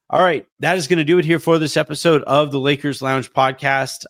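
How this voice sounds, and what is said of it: Sick-sounding voice. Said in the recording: “You guys have heard it in my voice. I have been sick all week this week.”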